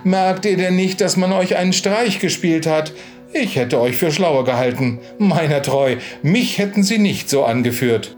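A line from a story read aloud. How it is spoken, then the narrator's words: Exclamation. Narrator (German): rief da Nina aus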